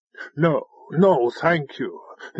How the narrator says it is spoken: the Avatar said, looking nervously

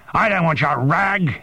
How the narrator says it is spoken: he screamed

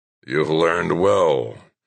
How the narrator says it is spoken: rasped O'Connor

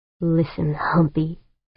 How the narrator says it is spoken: Pancho growled

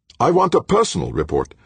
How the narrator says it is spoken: Ulrich snapped

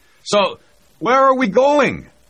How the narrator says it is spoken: Zavgorodny shouted back

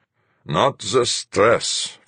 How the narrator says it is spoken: Fuchs mumbled

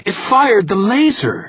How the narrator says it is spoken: fairly shouted

